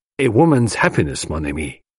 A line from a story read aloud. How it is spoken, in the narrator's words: he said gravely